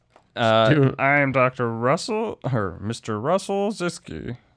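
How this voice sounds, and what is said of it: Imitates another person's voice. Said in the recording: “my Harold Ramis impression”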